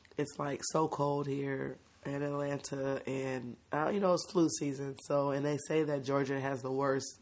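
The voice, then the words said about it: Hoarse, raspy voice. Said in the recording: “hoarse, raspy voice ... She caught a little cold.”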